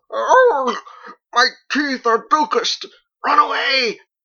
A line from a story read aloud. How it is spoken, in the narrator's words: She howled